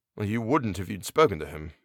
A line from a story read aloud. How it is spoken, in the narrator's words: I muttered